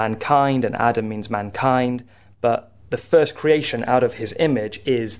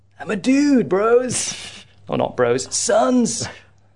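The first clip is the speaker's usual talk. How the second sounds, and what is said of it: Put-on California surfer dude accent. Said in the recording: “I don't know why he's from California ... where the accent came from ... I like to think of him as a surfer dude”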